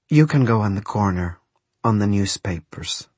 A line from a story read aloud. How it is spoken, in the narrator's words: said Rosa